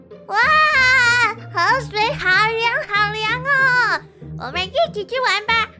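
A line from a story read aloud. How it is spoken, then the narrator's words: Excited shout. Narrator (Chinese): 草草大叫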